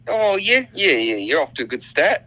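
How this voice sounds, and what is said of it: Put-on New Zealand accent. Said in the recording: “If you want to talk like a Kiwi ... The I's become like U's. The E's become I's.”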